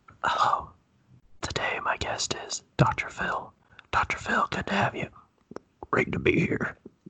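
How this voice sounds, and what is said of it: Whispered voice with attempted accent. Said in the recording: “I tried to do a whisper, and I wasn't sure how to do something accent with a whisper.”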